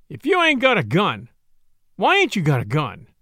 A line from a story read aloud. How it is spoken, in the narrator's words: he sneered